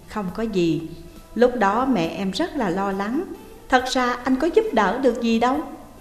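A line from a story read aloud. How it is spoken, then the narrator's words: Smiling. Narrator (Vietnamese): Chu Sung mỉm cười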